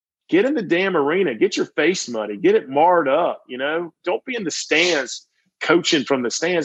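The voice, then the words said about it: Southern United States accent. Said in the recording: “if you like my voice, if you like the Southern United States accent”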